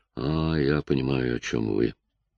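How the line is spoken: Weak voice. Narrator (Russian): сказала она слабым голосом

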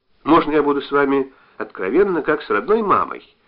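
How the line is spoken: Affectionate question. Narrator (Russian): ласково спросила Вера

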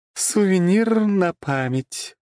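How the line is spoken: Purring. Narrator (Russian): промурлыкала она

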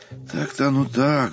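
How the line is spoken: Sighing. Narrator (Russian): вздохнул Устинов

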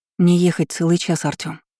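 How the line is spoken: Quiet, timid. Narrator (Russian): тихо сказала я, не смея вырываться из его крепкой хватки

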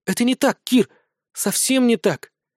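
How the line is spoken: Quiet, resolved whisper. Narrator (Russian): тихо прошептала она, наконец решившись

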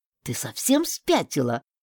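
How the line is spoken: Indignant hiss. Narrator (Russian): возмущенно прошипел на меня дежурный

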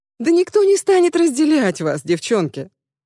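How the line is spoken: Exclamation. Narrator (Russian): воскликнула Аннабет

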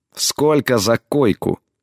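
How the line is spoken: Clipped reply. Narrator (Russian): процедила в ответ

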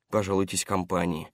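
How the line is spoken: Displeased grumble. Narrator (Russian): недовольно пробурчал Паркер

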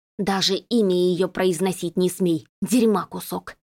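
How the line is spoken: Hissed. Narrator (Russian): Прошипела

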